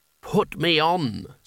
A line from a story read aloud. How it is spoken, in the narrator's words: said the hat, beguilingly, in an ancient voice that sounded as though the speaker had a mouthful of felt